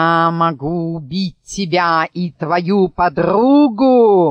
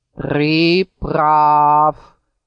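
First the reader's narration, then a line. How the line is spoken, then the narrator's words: Eagle grumbling. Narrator (Russian): проворчал орел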